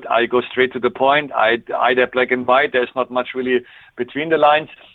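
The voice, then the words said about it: Strong German accent, fast speech. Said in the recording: “my German strong accent ... My very fast speaking”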